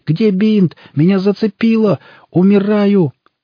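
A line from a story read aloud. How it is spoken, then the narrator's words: Wailing. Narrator (Russian): Те завопили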